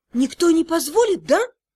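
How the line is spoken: Frightened whisper. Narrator (Russian): испуганным шепотом спросила

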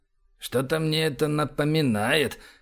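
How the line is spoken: Muttered. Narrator (Russian): пробормотал Эбер

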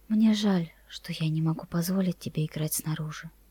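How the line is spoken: Whisper. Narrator (Russian): мама прошептала

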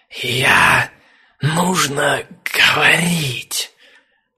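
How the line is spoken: Dragon hissing. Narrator (Russian): Снова прошипел дракон

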